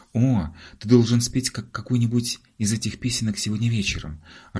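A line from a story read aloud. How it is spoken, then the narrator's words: Joyful. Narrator (Russian): радостно заявила Марго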